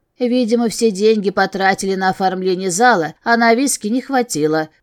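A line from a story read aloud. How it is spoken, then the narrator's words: Muttering under breath. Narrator (Russian): пробурчала я себе под нос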